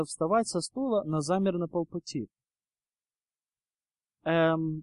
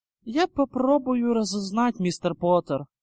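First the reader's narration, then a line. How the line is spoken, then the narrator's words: Sighing. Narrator (Russian): она вздохнула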